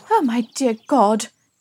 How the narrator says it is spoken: Dilly exclaimed

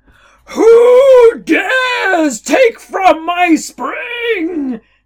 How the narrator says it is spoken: the god of thunder roared from above

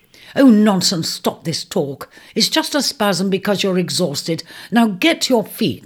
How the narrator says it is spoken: commanded sternly

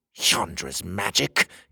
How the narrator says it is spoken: the king spat

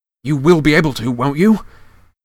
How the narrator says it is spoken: said Harry desperately

